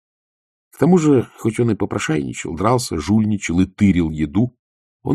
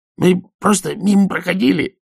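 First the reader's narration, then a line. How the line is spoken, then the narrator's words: Stifled cheerful yap. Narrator (Russian): тявкнул он придушенно веселым голосом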